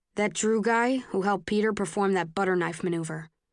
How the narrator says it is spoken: Tobias says

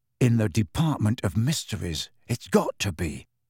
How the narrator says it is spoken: Harry whispered

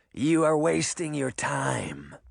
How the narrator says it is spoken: Canis growled

